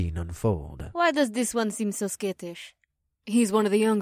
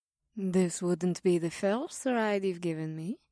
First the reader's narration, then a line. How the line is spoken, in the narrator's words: Mira purred into my ear